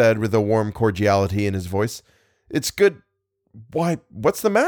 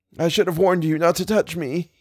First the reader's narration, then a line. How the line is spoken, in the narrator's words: he moaned